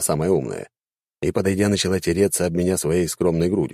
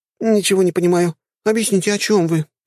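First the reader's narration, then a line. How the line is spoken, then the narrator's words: Pleading. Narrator (Russian): взмолилась самая высокая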